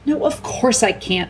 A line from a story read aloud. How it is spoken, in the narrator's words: snapped Susan